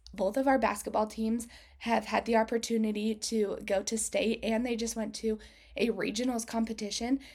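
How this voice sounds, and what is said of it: Hoarse, strained voice. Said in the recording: “I sincerely apologize for my voice ... I've been doing a lot of cheering recently, and apparently my vocal cords are just a little bit distressed. So that is why I sound a little bit crazy”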